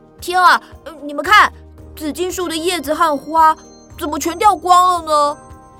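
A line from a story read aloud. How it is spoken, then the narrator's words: Sudden cry. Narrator (Chinese): 突然，他大叫了起来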